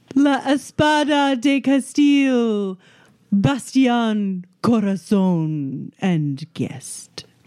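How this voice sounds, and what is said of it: Exaggerated, ridiculous put-on accent. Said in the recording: “Does everybody in Montaigne speak like that? That is a ridiculous accent.”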